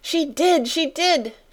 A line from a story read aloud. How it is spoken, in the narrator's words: she cried